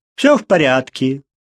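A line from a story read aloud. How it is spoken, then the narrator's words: Loud announcement. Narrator (Russian): громко сообщил он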